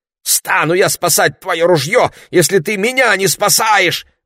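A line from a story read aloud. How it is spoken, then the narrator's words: Wailing. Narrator (Russian): вопил Ларри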